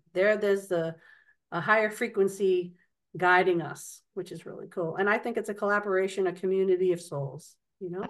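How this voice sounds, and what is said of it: Boston accent. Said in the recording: “your fabulous accent. ... That's Bostonian.”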